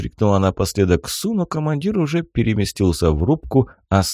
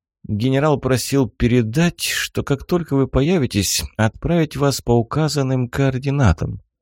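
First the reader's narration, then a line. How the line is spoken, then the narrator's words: Sad, smiling. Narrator (Russian): грустно улыбнулась Светлана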